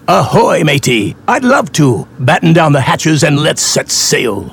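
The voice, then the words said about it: Pirate character voice. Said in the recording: “talking like a pirate”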